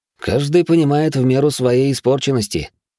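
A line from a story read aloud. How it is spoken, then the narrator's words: Wry snort. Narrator (Russian): хмыкнул я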